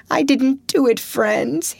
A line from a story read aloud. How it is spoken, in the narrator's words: he sobbed